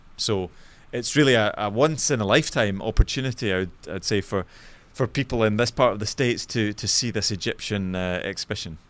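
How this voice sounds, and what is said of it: Scottish accent. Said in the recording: “obviously from your accent, not American ... my native city, which is Glasgow in Scotland, so you might be able to pick up my”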